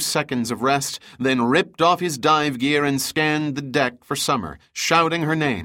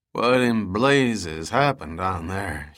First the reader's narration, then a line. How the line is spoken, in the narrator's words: asked in a slurred voice